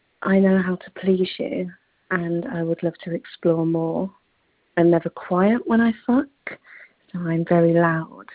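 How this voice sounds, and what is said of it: English accent. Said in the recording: “I'm from the UK ... I have, as you can tell, the most amazing English accent”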